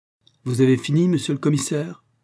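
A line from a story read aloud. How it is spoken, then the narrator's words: Sharp questioning tone. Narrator (French): interrogea-t-il d'un ton tranchant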